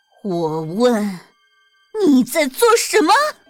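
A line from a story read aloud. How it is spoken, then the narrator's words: Furious roar. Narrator (Chinese): 一股怒火从泰诺的胸腔直冲头顶，他嘶吼着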